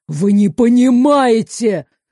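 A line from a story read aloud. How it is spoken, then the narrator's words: Roaring. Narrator (Russian): взревел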